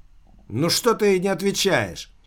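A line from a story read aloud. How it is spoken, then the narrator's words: Irritated mechanical exclamation. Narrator (Russian): воскликнул между тем механический друг с сильным раздражением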